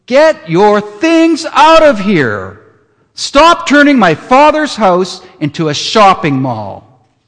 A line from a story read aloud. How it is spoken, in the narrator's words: shouting